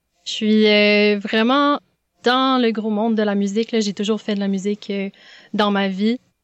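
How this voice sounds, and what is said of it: Strong Québécois French accent. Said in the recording (French): “j'ai le gros accent québécois”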